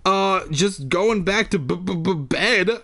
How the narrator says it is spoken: I stammered

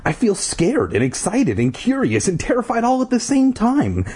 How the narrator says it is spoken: Ashley exclaimed

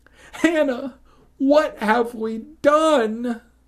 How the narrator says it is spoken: I cried

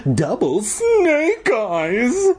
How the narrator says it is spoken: Flag cried

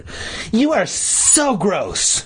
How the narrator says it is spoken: she shrieked

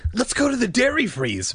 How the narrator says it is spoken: Michael exclaimed enthusiastically

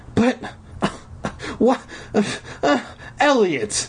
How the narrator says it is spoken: I sputtered

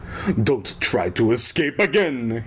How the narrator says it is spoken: he growled

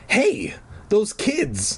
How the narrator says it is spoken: I cried

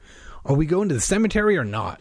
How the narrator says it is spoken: Josh asked impatiently

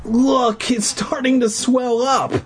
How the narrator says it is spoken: he groaned

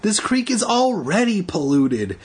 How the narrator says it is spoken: Andy exclaimed

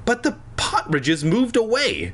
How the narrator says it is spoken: Fanny cried

